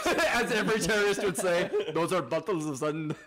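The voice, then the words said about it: Put-on rough Indian accent. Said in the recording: “What the fuck accent is that? ... It was the red dot Indian almost.”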